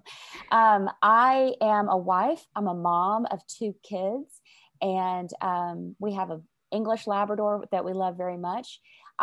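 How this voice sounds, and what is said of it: Southern US accent. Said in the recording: “I live in Arkansas, which is why you probably hear a Southern accent.”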